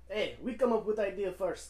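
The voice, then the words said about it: Put-on Russian accent. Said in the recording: “I don't know what fucking accent that was ... that was a Russian accent.”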